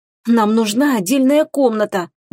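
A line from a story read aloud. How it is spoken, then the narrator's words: Pleading moan. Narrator (Russian): умоляюще простонала Теруми Чону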